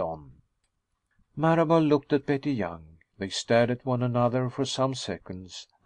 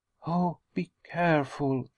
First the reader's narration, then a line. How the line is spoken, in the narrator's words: she whispered